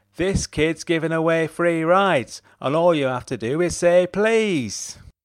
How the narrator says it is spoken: called at the top of his voice

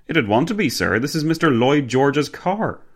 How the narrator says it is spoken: Fitzwilliam exclaimed, with no effort at all to mask his pride

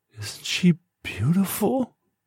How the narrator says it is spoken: She whispered in a crackled voice

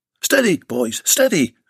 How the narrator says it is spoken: Bill shouted

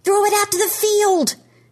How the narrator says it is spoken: Trevor yells

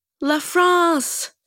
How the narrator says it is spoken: shouts the mime artist, silently

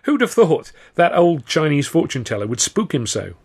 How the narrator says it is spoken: Stan chuckled

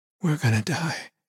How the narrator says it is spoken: Sis said in a small voice

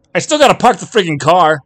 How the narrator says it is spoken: he shouted back at her

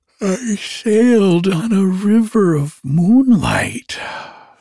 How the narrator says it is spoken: the little otter declared with a yawn

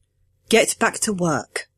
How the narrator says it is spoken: I said, firmly but gently, the way you'd talk to a skittish pup

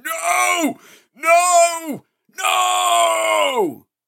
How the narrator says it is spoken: grinding my teeth and howling in agony, going

